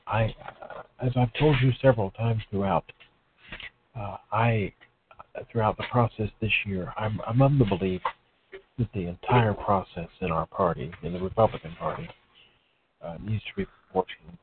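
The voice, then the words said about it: Speaks in a low, hushed voice. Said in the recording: “I'm in a low voice because I'm holding my beautiful, sleeping, almost one-year-old daughter, and I don't want to wake her. So I hope everyone can hear me.”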